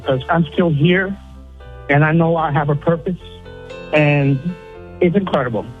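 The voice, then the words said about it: Tearful, emotional voice. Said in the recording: “I'm getting a little emotional. I'm crying a little bit”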